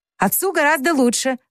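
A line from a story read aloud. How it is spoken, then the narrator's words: Suppressing laughter. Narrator (Russian): ответила Джо, стараясь не рассмеяться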